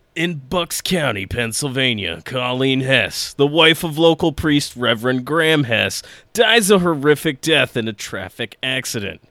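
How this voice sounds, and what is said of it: Dramatic movie trailer narrator voice. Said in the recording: “in my best trailer voice.”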